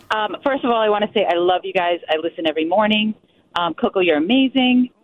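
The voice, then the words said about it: Voice affected by a cold. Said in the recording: “Excuse my voice. I have a cold.”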